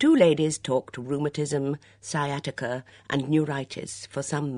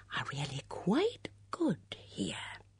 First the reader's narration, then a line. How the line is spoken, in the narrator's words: Miss Bunner said in a conspiratorial whisper